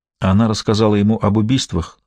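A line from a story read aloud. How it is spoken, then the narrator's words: Plain. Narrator (Russian): сказала Лакост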